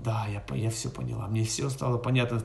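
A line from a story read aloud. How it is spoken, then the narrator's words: Hissing. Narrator (Russian): Тогда Сита стала шипеть, она сказала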